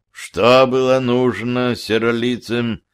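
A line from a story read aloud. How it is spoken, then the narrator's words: Muffled elder's question. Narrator (Russian): глухо спросил, продолжавший стоять старейшина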